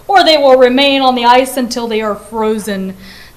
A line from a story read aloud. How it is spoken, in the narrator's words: bellowed the Emperor